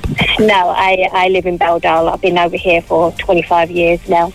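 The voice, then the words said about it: English accent from near London. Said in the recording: “You have a lovely accent. Where are you from? ... Originally from Hayes, Middlesex. That's just outside London.”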